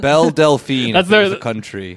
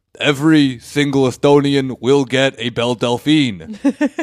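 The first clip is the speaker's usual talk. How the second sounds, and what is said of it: Imitates a prime minister's voice. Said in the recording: “my Estonian prime minister impersonation.”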